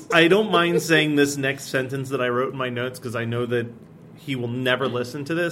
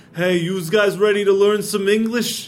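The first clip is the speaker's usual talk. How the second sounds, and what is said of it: Put-on New Jersey accent. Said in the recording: “Jersey accent just sounds like my brother-in-law. ... He's a combination of that and Sylvester Stallone.”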